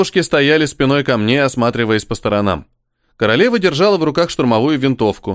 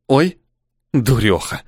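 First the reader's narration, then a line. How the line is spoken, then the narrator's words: Hissing queen. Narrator (Russian): прошипела королева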